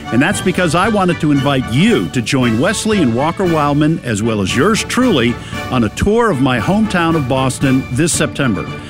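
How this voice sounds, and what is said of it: Boston accent. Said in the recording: “It's a Boston accent.”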